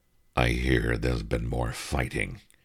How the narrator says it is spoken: Kathajan rumbled in deep underwater Anglic

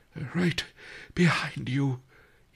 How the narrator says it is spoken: he panted

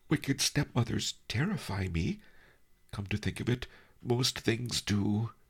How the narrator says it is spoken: added sadly

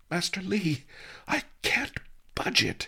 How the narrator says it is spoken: panted

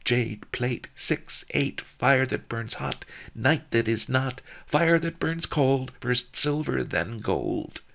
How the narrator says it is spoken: The giggles and laughter grew louder, and they chanted happily over and over

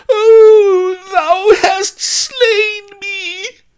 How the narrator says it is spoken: Fainting maid reeled and screeched

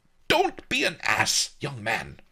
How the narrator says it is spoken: Master Lee said angrily

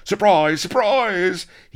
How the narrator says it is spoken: the first pirates came ramping in, yelling

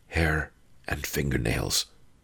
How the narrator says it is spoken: he whispered back

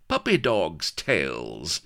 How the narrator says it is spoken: laughed Sheba

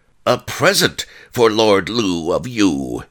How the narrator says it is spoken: he yelled

